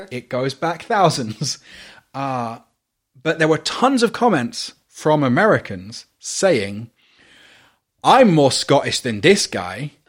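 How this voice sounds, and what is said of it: British accent. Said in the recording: “From my accent, very clearly British.”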